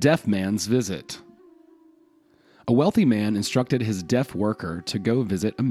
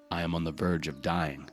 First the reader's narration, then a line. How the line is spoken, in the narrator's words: the man replied